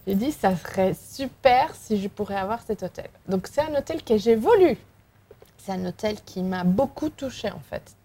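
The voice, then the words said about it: Slight Spanish accent in French. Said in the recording (French): “il y a un petit accent. Il y a un petit accent ... je suis espagnole, je suis galicienne”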